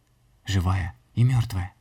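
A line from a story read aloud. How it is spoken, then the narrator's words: Child, breathless exhale. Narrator (Russian): Мальчик выдохнул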